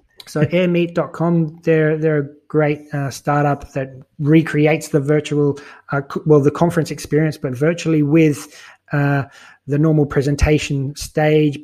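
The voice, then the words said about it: Irish accent. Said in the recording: “is it Irish accent is getting in the way of that one a little bit”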